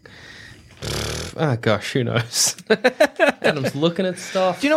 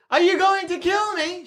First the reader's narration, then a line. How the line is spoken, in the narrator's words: She yells